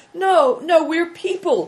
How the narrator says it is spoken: cried Big Tiger

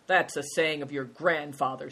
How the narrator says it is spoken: scoffed Good Fortune

